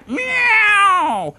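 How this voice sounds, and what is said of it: Imitates a cat's howl. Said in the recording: “It's a very good cat impression.”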